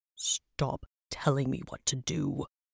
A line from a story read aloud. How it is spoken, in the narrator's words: Travok grunted